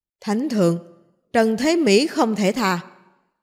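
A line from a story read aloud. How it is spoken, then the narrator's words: Loud formal voice. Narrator (Vietnamese): Bao đại nhân cao giọng nói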